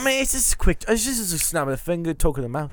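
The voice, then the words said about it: Put-on British accent, not very convincing. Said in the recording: “How good is this British accent, by the way? ... It's getting better, but I think you need to listen to some actual British accents.”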